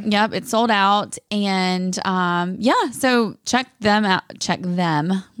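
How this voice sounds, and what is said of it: Sudden put-on accent. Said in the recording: “Where did my accent just come from, guys?”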